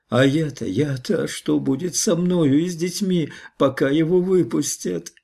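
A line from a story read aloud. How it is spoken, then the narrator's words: Sobbing woman. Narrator (Russian): рыдала она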